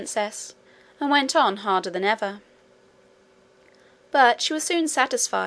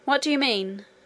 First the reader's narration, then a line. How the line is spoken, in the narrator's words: exclaimed Curdie